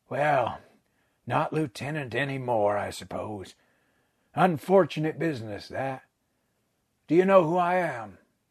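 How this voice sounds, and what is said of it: Character voice with American accent. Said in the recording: “the American accent startling”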